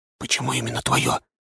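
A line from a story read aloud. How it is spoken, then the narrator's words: Whispered while smiling. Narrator (Russian): шепотом спросил я у нее, не переставая улыбаться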